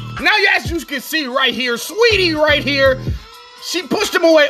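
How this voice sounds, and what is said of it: Fight commentator voice. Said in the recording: “I have to do this in my fight breakdown voice.”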